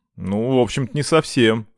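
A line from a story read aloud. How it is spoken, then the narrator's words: Confused reply. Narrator (Russian): растерянно ответила та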